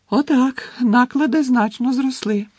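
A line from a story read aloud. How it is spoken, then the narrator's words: Cheerful announcement. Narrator (Ukrainian): радісно повідомила Луна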